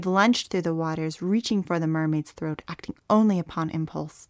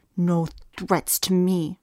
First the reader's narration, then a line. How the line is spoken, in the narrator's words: the young mermaid hissed